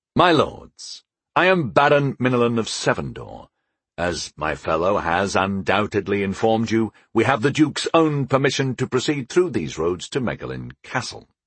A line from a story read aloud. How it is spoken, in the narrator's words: I said smoothly